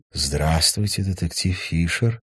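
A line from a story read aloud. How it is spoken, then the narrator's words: Soft, deep singsong. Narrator (Russian): пропела она мягким грудным голосом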